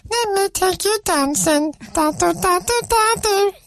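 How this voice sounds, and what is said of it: Singing in an Elmo character voice. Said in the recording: “singing that song, the entire song, in my Elmo voice ... this version of Elmo”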